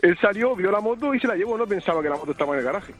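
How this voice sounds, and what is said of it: Strong regional Spanish accent. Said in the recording (Spanish): “Qué delicioso el acento”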